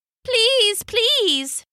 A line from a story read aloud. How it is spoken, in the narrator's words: cried